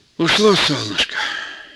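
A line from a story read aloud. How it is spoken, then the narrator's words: Old man's sigh. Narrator (Russian): вздохнул старик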